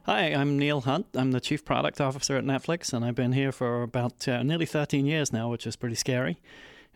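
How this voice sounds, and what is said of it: Faded British accent. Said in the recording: “accent has faded a bit, but you can hear he's a Brit.”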